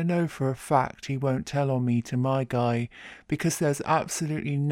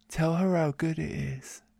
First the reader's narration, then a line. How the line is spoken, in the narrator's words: says sweetly